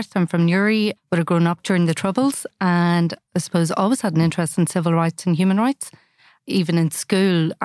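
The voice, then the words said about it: Northern Irish accent. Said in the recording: “as you can probably tell from my accent, I grew up in the north”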